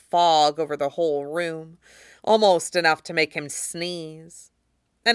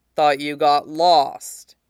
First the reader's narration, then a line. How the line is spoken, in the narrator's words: he drawls, a rumble carrying the weight of each word